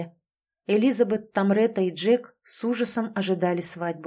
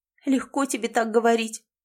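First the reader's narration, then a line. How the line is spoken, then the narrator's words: Sobbing girl. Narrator (Russian): ответила девушка, продолжая всхлипывать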